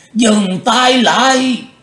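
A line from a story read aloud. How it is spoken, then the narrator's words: Sudden shout. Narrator (Vietnamese): Lão quái bỗng hét lên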